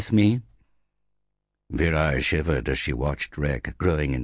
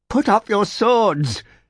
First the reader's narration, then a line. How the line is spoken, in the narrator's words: screamed